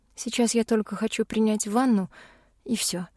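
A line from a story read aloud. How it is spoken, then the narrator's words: Sigh. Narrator (Russian): вздохнула я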